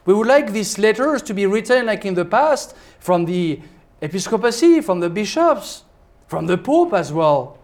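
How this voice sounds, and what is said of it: Swiss-accented English. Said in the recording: “a little father who comes from Switzerland with a bad accent”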